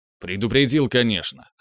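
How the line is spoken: Snort. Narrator (Russian): хмыкнул я

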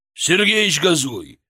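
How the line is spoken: Bark. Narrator (Russian): рявкнул Григорий

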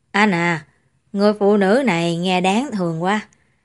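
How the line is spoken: Quiet. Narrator (Vietnamese): Nghiêm Kính nhỏ giọng nói

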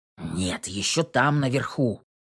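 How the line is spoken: Grumbling necromancer. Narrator (Russian): пробурчал некромант

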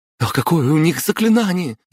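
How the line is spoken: Frightened breathless. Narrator (Russian): испуганно выдохнул Дима

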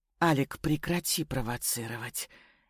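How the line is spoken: Barely audible. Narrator (Russian): еле слышно обратилась ко мне Катюша

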